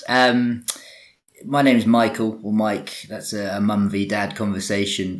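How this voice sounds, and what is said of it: English accent. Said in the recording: “despite my my English accent”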